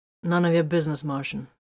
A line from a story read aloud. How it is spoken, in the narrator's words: he answered flatly